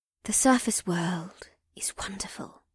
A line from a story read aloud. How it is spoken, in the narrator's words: Bulra continued in a shy tone